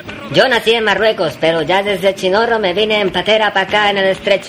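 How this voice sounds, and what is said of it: Andalusian Triana accent. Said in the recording (Spanish): “se te nota ese acento de Triana”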